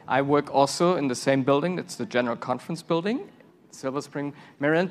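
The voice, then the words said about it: German accent. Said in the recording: “you hear our accent. I'm from Germany originally.”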